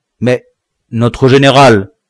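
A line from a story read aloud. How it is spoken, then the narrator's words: Stammering, confused and trembling. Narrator (French): balbutia le nègre confus et tremblant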